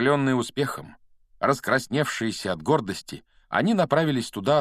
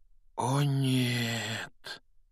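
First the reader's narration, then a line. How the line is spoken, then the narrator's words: Quiet, shaken. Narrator (Russian): тихо произнес Рон, бледнее, как кровавый барон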